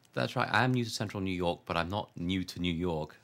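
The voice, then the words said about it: English accent mixed with Buffalo. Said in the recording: “I hear more than a Buffalo accent in your voice”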